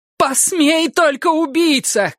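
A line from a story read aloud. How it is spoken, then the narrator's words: Woman shouting. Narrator (Russian): кричала она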